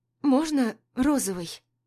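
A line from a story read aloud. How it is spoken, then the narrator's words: Timid question. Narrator (Russian): робко спрашивает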